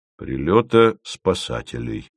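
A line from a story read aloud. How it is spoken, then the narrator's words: Calm. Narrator (Russian): спокойно сказал Яровой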